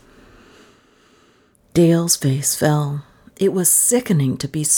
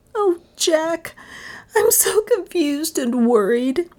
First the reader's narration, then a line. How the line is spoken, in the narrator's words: she confessed with a little sob